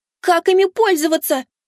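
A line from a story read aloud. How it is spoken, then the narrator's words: Desperate shout. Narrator (Russian): выкрикнула кицуне, которую уже оплетали щупальца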